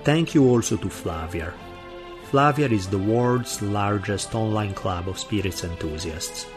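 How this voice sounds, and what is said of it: Heavy Italian accent. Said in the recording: “my heavy Italian accent”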